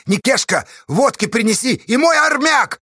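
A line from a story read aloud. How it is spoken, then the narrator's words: Yelling. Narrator (Russian): заорал Асташа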